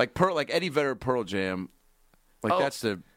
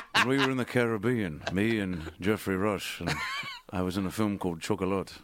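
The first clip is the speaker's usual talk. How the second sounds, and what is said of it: Imitates a Jack Sparrow-like voice. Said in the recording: “he sounds like Jack Sparrow from Pirates of the Caribbean ... I speak like I have an accent”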